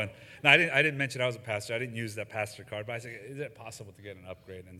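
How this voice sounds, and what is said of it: Usual voice. Nothing is said of it.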